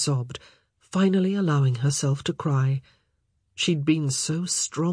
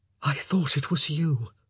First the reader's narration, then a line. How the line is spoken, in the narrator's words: Philip whispered